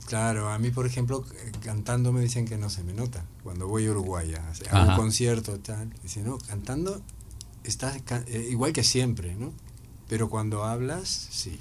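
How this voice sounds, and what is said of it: Uruguayan Spanish accent. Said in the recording (Spanish): “todavía sigo, para aquí sigo teniendo acento uruguayo”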